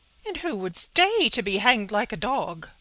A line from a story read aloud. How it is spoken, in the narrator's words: cried Betty